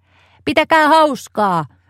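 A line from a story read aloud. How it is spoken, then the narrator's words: Shouting. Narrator (Finnish): Anu huusi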